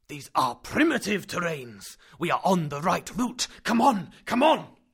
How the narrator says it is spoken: the professor bellowed

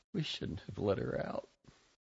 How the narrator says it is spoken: My elder niece, Adira, a pale, black-haired tomboy, would occasionally mutter

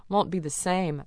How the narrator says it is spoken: grumbled

